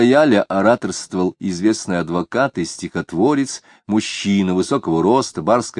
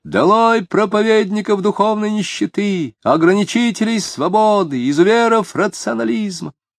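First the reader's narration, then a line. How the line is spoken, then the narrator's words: Near-hysterical shouting. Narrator (Russian): почти истерически кричал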